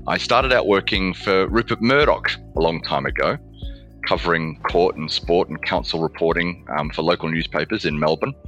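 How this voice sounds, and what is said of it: Australian accent. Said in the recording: “starting off in Australia, as you might be able to tell from my accent”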